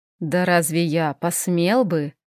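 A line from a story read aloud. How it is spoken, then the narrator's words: Purring. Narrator (Russian): мурлыкнул Хел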